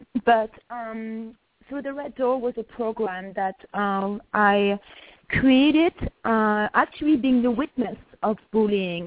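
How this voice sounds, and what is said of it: Sick-sounding voice. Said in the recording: “sorry about my voice. I'm a little sick.”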